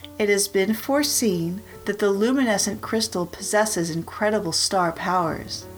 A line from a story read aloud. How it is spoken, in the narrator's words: exclaimed Sailor Fulcrum